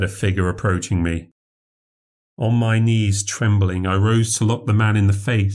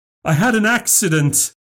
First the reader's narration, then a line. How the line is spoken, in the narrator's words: I cried